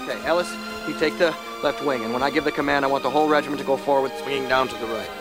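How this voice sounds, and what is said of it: Poorly done Maine accent. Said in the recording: “bad Maine accent”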